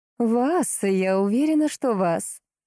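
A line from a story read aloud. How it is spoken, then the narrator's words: Light laugh, girl. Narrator (Russian): легко рассмеялась девушка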